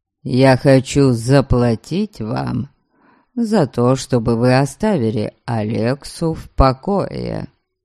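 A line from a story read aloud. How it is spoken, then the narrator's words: Calm. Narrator (Russian): спокойно продолжил Дариан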